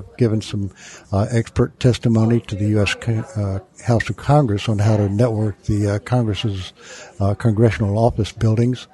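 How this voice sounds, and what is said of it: Southern American accent. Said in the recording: “That's where I got my southern accent,”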